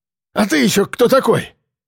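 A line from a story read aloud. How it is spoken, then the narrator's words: Coughing exclamation. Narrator (Russian): воскликнул толстый, кашляющий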